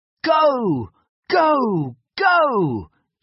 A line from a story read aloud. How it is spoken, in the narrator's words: shouted Biff